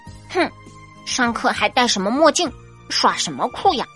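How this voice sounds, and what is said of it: Muttering in a low voice. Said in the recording (Chinese): “有人小声嘀咕着”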